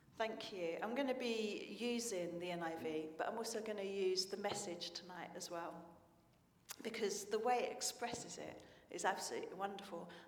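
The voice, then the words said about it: Slightly hoarse, failing voice. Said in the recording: “I'm losing my voice a little bit ... Too much shouting all day, I think.”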